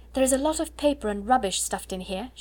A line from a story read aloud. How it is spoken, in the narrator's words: exclaimed